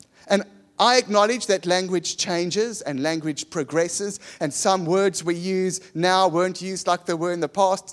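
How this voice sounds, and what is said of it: Posh-sounding South African accent. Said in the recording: “We sound so posh. ... As posh as a South African accent will ever get”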